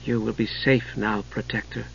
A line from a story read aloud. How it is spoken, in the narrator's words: said softly